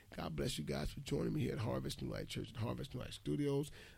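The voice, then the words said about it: Tired, slightly raspy voice. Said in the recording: “I was a little tired, a little raspy in my voice”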